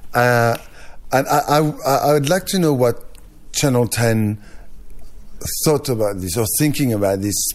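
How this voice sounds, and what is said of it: French accent. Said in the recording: “your accent ... French mannerisms ... my accent was an issue”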